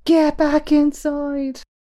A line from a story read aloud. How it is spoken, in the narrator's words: In anguish, Opedius cried out